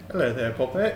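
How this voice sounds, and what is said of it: Put-on British accent. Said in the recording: “thought you were British ... There you go. There's the accent.”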